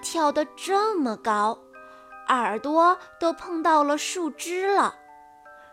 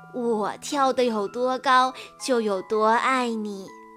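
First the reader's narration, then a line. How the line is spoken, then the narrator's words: Laughing. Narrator (Chinese): 大兔子也笑着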